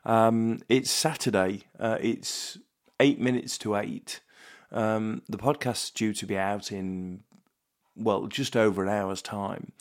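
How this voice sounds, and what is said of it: Sick-sounding voice. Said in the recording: “you can probably hear it in my voice ... I felt fairly lousy yesterday. I've had a cold for a couple of days”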